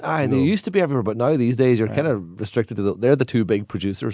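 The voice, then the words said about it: Irish Donegal accent. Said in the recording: “The Donegal one, where Steve comes from ... the Irish accent ... the Donegal accent”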